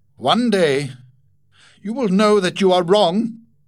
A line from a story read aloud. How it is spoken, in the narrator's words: cried